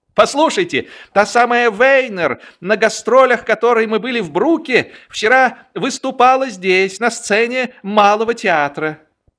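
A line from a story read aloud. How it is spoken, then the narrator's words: Exclaimed. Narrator (Russian): воскликнул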